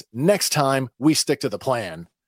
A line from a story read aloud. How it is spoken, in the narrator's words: Angrily, says